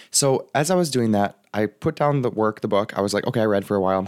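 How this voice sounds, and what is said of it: Raspy, strained voice. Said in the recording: “sorry guys about my voice. I'm really going to power through. It's just going to get a little bit raspy.”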